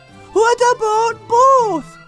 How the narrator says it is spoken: They shouted

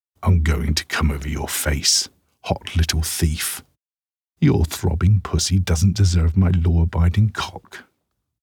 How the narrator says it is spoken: he growls

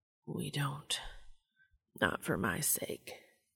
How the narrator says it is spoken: he murmured

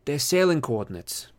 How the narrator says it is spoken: said

